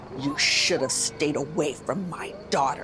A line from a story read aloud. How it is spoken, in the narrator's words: Snarling, it said